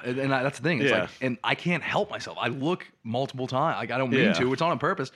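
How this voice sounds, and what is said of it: Strong Boston accent. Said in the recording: “the Boston accent's disgusting ... such a disgusting accent. My voice is gross”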